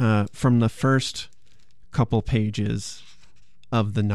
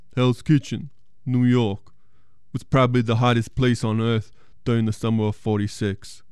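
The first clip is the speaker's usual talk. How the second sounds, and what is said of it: Imitates another person's voice. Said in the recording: “Or should I do it in a Stallone accent?”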